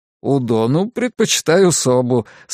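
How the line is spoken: Laughing. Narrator (Russian): сказал он и рассмеялся

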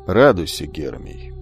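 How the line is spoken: Tired. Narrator (Russian): устало произнес Амфитрион

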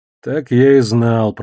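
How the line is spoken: Grumbled. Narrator (Russian): проворчал я

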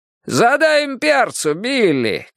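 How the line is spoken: Father shouting. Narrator (Russian): крикнул папа

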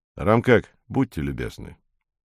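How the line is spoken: Quiet call. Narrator (Russian): негромко окликнул

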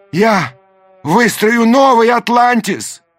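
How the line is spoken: Shouting after them. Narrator (Russian): крикнул им вслед Даймё

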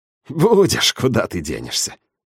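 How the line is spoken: Snort. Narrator (Russian): фыркнул он

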